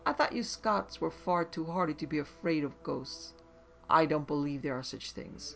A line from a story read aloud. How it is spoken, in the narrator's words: a London cockney in the room, and he laughed and said